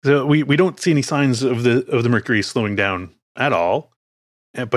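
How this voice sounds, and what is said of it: Usual voice. Nothing is said of it.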